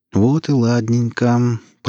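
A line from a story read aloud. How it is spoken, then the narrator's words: Purring. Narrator (Russian): промурлыкал Гриф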